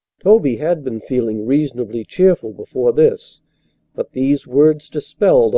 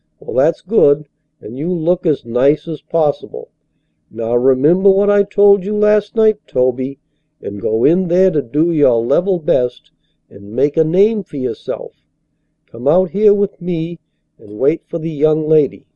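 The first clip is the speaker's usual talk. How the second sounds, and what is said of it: Cheerful old man's voice. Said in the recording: “in his cheeriest voice”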